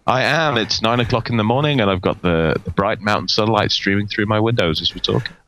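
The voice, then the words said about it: British accent. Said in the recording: “You have not lost your British accent.”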